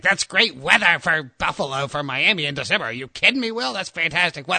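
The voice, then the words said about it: Imitates another person's voice. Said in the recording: “that's not a great Prisco impersonation. ... It was pretty bad. ... Yeah, it's pretty bad, but you can kind of get the gist of it.”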